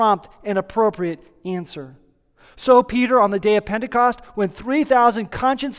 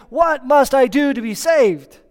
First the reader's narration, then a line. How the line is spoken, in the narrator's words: the Philippian jailer came trembling to Paul and Silas exclaiming